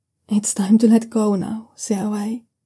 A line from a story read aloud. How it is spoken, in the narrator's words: gently tells him